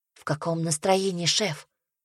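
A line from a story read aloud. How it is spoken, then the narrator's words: Quiet question. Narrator (Russian): тихонько спросила ее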